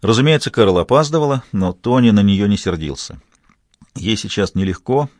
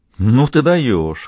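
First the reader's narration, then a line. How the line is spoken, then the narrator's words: Laughing. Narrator (Russian): рассмеялась Кэрол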